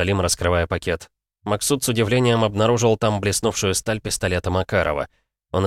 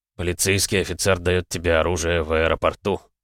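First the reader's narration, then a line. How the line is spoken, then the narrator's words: Mutter. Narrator (Russian): пробормотал Намазов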